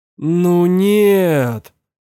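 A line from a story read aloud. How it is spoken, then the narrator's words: Pleading. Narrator (Russian): взмолился Роман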